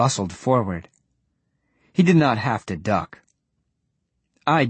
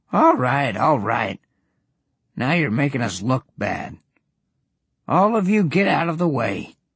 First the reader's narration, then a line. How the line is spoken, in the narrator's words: Goblin grumbled